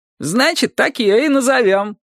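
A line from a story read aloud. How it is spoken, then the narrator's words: Loud laughter. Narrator (Russian): Тереза расхохоталась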